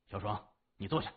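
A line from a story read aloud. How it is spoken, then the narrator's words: Low, stern. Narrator (Chinese): 谢文东 沉声说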